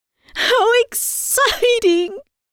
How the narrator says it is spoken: I shrieked

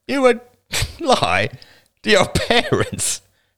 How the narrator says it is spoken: He laughed harshly

